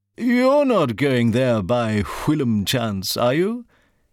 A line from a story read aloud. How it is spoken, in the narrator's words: Tintak Ping Fu gave an even airier laugh